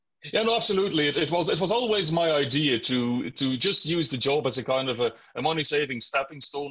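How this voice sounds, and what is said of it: Irish-influenced accent. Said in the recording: “that's obviously where you picked the accent up from”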